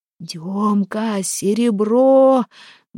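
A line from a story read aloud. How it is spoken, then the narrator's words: Muffled shout. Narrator (Russian): глухо кричал Харапун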